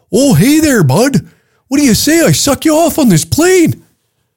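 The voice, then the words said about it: Put-on Canadian accent. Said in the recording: “The Canadian accent is already unattractive.”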